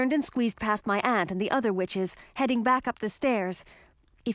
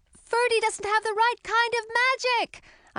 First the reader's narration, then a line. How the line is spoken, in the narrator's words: shouted, running up the last few steps